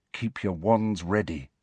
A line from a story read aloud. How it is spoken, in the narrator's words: said softly